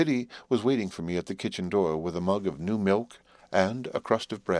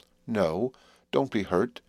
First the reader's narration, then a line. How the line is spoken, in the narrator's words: she pleaded quite pathetically